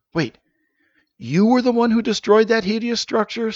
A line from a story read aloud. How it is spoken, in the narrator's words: Safe gasped